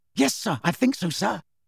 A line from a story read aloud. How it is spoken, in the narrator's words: said Percy eagerly